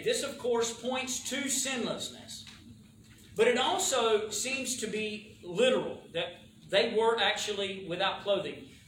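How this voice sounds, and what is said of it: Southern American accent. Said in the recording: “My southern accent makes it sound like they were doing something wrong.”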